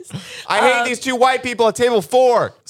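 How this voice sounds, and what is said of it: Shouting. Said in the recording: “You're shouting.”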